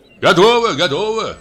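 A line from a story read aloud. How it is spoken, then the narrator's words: Guests shouting. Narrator (Russian): крикнули гости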